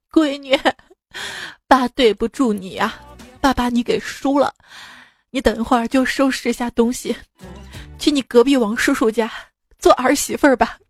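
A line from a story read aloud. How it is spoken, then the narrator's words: Tearful complaint. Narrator (Chinese): 我爸哭诉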